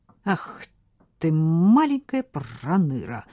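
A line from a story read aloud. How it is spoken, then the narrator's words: Indignant hiss. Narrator (Russian): зашипел негодующий голос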